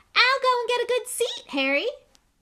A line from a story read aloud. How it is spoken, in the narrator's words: Colin called after him in a piping voice